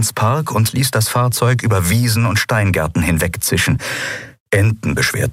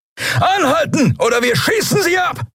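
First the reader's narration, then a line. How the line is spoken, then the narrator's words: Roar. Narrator (German): brüllte jemand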